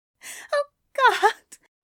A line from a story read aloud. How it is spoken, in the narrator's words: Aziraphale gasped